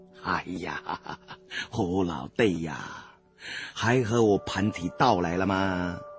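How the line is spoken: Laughing. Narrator (Chinese): 明叔笑道

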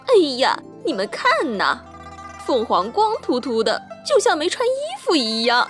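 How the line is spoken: Proud mocking. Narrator (Chinese): 骄傲的孔雀昂着头，嘲笑地说

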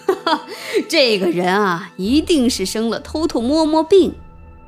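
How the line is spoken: Loud laughing. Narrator (Chinese): 楚王大笑道

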